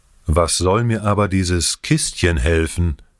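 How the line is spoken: Plain question. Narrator (German): fragte Ion weiter

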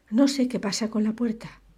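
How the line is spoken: Exclamation. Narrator (Spanish): exclamó

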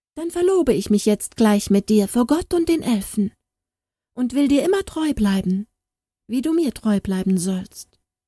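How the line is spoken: Cheerful. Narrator (German): sagte Sternhilde fröhlich

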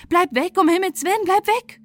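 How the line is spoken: Group shouting. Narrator (German): Da schrien die anderen

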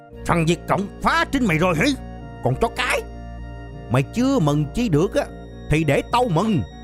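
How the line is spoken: Roaring through clenched teeth. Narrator (Vietnamese): nghiến răng gầm lên

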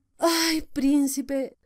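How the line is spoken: Sighing again. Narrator (Spanish): dijo suspirando otra vez

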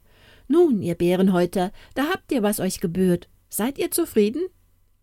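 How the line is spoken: Called out. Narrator (German): rief

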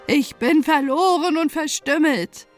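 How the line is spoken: Exclaimed. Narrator (German): rief sie aus

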